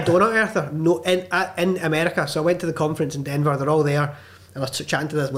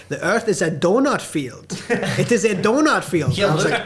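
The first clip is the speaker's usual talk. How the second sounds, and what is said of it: Put-on German accent. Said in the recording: “I think that she's German ... anytime somebody says something in a German accent”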